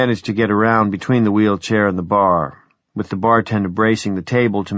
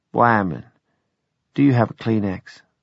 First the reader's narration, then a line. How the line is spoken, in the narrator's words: she fetched a sigh and said